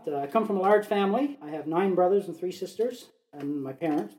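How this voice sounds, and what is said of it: Slight Newfoundland accent. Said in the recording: “I am from the East Coast. I'm a Newfoundlander. You might detect a little bit of an accent. It comes out once in a while.”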